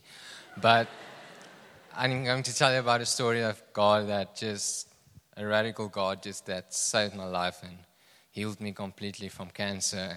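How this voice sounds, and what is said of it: Afrikaans-accented English. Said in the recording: “we just speak Afrikaans there, so excuse my accent. If I talk English”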